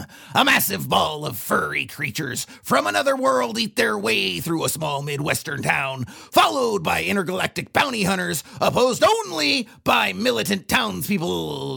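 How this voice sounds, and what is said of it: Old man character voice. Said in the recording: “that character voice ... I'm the old guy on the uh, rocking chair”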